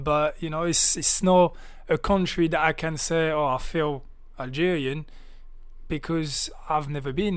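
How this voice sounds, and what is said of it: French-accented English. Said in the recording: “you have a very interesting accent. Very interesting accent. ... that screams to me that obviously you originate from France”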